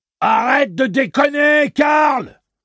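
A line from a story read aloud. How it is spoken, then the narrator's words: Yelled. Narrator (French): hurla O'Meara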